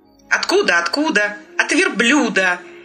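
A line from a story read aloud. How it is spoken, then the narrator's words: Angry little chair. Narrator (Russian): сердито сказал стульчик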